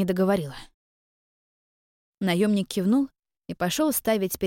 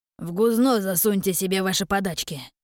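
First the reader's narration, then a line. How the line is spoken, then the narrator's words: Disgusted, through gritted teeth. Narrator (Russian): С отвращением процедил он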